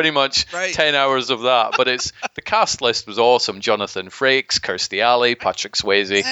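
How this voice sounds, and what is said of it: Usual voice. Nothing is said of it.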